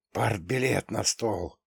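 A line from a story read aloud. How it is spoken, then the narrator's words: Crowd whispers. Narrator (Russian): раздались среди ожидающих шепотки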